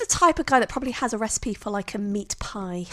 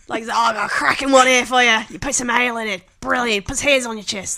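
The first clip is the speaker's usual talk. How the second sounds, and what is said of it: Poor put-on Australian accent. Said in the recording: “So that's an Australian accent, apparently. ... is that your Australian accent? ... That's terrible.”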